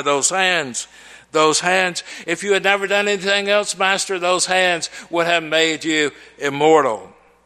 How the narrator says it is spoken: a third cried

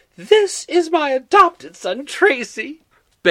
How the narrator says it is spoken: Betty exclaimed with bravado

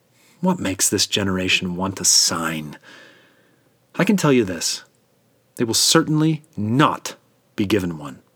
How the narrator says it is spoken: that sigh, and then said

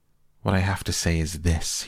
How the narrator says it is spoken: cried

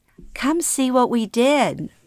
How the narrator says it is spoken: Mom proudly exclaims

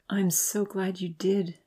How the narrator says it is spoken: she whispered

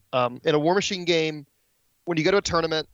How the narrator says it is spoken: the TO yells out to everybody

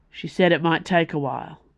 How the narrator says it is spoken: said the captain, in a gruff, disapproving voice

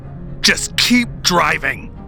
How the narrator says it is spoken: shouted at him

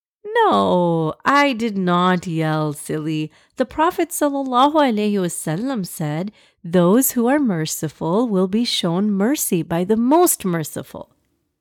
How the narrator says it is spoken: Mama chuckled

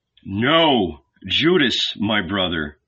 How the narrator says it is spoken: Jesus answered

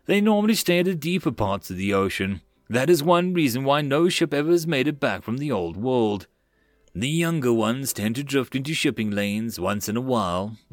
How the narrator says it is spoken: DeJohn gave a sigh before saying

